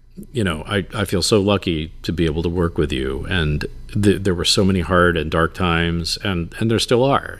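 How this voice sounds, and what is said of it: Emotional, moved voice. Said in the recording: “I'm going to get like a little emotional here.”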